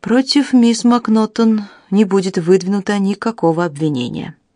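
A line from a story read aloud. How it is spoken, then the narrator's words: Grim. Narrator (Russian): мрачно произнес детектив-инспектор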